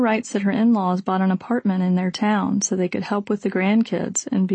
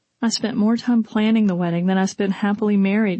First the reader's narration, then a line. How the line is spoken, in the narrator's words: she sobbed